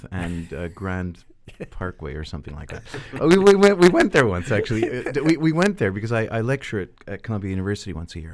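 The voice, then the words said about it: Melodious American accent. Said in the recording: “your very melodious accent is... Well, I'm American originally... my father's from the Bronx, from New York”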